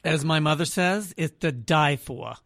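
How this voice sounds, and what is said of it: Put-on New York accent. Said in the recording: “I added the New York accent.”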